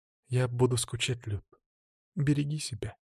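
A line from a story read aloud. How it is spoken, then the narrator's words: Quiet girl's voice. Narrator (Russian): Девушка сказала тихо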